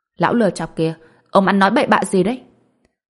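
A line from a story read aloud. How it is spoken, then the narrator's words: Angry scolding shout. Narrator (Vietnamese): Lý Dài Dào tức giận quát mắng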